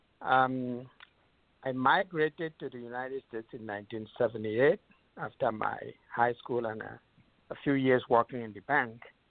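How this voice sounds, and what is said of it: Nigerian English accent. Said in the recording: “I was born in Nigeria, so you're going to hear a different accent”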